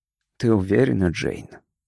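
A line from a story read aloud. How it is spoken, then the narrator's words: Very quiet question. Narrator (Russian): очень тихо спросил Карр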